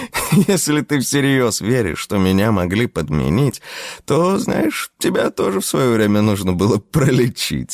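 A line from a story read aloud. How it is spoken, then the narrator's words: Declared, then laughed. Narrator (Russian): заявила она и рассмеялась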